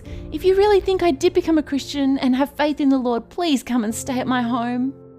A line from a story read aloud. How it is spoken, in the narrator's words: Lydia begged and begged Paul and Silas